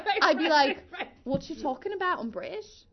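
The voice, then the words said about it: Bad put-on Cockney accent. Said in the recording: “why am I doing that accent? It's so, so bad... it's so bad... I was, like, doing the Cockney.”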